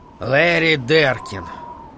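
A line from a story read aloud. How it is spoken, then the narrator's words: Muttered under breath. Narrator (Russian): пробормотал Холлоран себе под нос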